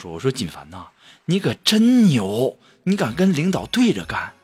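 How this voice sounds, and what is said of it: Quiet, hushed speech. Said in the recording (Chinese): “小声”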